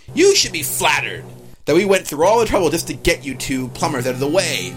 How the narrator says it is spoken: Roy sneers

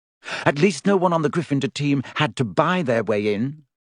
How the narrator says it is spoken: said Hermione sharply

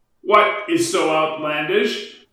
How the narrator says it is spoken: shouted Farouk across the table

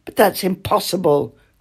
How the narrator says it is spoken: cried the old king

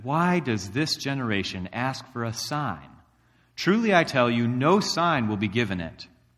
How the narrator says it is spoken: He sighed deeply and said

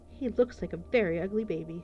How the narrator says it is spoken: laughed Sarah

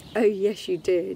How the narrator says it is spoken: laughs back

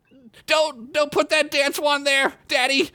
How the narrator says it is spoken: Squib yelled out, obviously having that reoccurring nightmare again

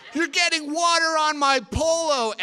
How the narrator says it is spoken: Adam screamed

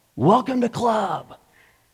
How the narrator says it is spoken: they all shout

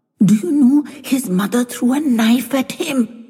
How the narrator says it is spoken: hissing softly at Doc

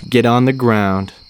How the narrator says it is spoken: the officer calmly said

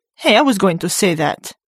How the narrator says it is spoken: Fortiri shouted

